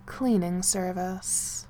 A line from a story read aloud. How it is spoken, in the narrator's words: Harold said dryly